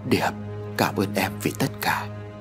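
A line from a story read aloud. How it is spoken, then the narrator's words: Soft. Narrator (Vietnamese): Ông Hải khẽ nói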